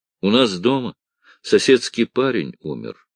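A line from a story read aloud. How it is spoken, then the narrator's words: Plain cockroach voice. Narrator (Russian): сказал таракан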